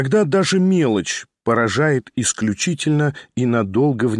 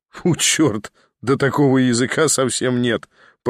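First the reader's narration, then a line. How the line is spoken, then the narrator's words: Laughing. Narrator (Russian): продолжал смеяться Николя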